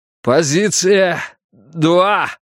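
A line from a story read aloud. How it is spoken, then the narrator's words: Hoarse, unrecognizable voice. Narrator (Russian): прохрипел я, едва узнавая собственный голос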